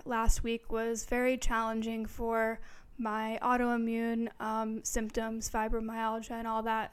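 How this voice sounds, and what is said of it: Strained, hoarse voice. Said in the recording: “I am kind of going through a little bit of a weird thing with my voice ... now I'm losing my voice”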